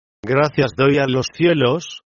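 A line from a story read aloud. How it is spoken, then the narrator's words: Plain. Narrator (Spanish): dijo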